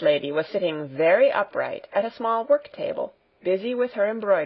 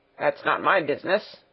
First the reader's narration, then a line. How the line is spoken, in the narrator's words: grumbled the coachman